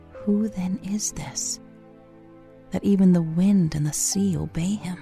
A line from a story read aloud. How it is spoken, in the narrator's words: a disciple whisper to another